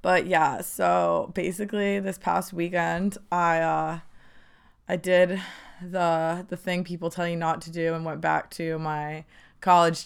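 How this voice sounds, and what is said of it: Hoarse, croaky, nearly lost voice. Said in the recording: “my voice is kind of gone. So sorry if I sound like a frog”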